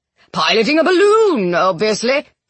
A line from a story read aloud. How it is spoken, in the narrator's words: he bellowed